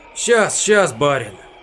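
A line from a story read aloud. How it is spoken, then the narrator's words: Choked apologetic mumble. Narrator (Russian): Задушенно бормотал Перхуша, словно оправдываясь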